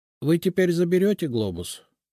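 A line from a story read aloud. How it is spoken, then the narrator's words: Dejected sinking voice. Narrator (Russian): упавшим голосом спросил домовой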